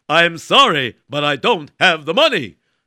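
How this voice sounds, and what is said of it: Louder speech. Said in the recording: “say it louder.”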